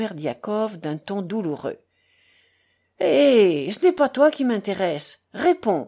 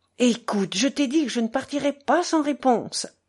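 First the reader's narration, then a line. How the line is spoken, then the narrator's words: Exasperated exclamation. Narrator (French): s'écria Ivan exaspéré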